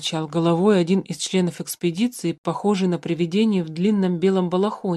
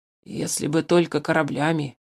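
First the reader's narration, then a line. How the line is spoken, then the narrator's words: Hoarse croak. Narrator (Russian): хрипло прокаркал воздушный разведчик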